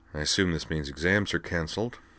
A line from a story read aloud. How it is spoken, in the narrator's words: she mumbled, sleepily